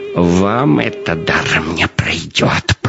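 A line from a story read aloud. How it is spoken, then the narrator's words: Hissing. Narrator (Russian): прошипел он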